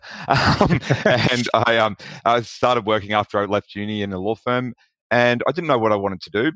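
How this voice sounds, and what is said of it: Australian accent. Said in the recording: “People can probably tell from my accent that I'm from Australia.”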